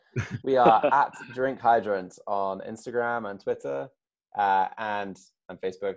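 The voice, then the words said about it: British accent. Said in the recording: “use your British accent. Let's charm them.”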